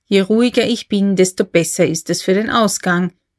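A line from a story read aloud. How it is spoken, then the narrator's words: Plain. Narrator (German): sagte K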